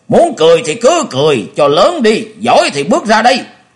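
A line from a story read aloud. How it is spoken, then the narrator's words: Furious thunderous roar. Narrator (Vietnamese): Bành Bái tính tình nóng nảy, thấy mọi người nhìn mình giễu cợt thì tức giận gầm lên như sấm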